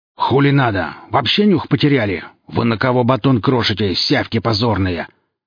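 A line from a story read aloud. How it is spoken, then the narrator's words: Growl. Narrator (Russian): рыкнул Велес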